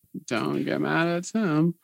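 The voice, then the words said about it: Drunk girl voice. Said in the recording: “my drunk girl voice”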